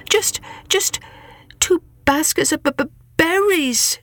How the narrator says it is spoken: stammered Saishan

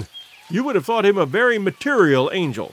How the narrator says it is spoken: laughed Clayton

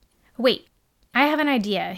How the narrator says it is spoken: said quickly

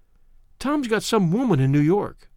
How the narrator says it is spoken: she said hesitantly

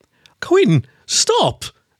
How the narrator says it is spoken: Elise cried

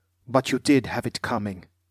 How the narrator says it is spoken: he said, his voice tight and controlled

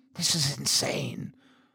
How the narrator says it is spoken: I whispered

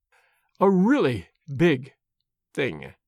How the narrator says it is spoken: she said slowly and very gravely

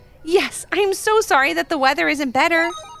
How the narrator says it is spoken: exclaimed Aria

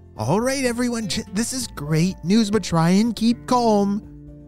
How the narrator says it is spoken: her dad said in a loving voice

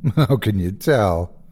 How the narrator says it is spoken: asked him sarcastically with a timid smile

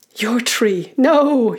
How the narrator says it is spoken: you want to shout

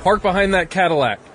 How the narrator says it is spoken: He yelled

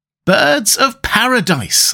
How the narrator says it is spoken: I exclaimed

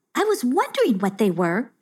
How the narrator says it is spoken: exclaimed Forgetta with delight

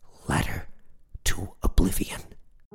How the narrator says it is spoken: Rob replied, nearly whispering

